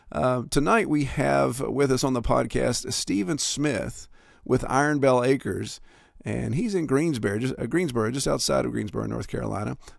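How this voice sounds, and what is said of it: Congested, stuffy head-cold voice. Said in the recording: “If my voice sounds a little different, it's because it is that time of year, and I've got a pretty good head cold.”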